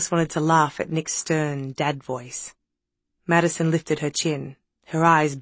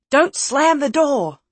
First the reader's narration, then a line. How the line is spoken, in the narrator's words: called out Nick